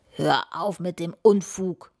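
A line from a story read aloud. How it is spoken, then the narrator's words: Dragon growling. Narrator (German): knurrt der Drachen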